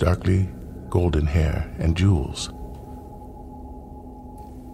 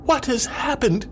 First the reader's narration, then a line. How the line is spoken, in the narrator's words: cried